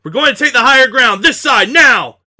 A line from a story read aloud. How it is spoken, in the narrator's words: Murph shouted